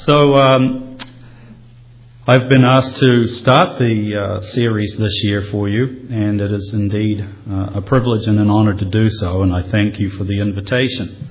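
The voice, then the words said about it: Speaker's own noticeable accent. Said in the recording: “You're hearing a taste of the future in the accent.”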